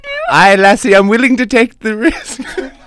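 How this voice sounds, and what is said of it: Weak put-on Irish accent. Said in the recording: “read this very bravely in your Irish accent ... That's the best Irish accent you can do?”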